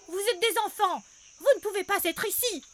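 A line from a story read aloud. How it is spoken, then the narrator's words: Shouting gnome. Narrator (French): crie un gnome à lunettes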